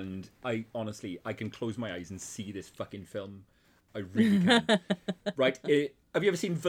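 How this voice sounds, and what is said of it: Usual voice. Nothing is said of it.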